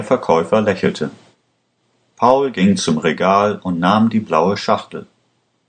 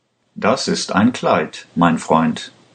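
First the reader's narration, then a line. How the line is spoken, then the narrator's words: Plain. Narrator (German): antwortete der Verkäufer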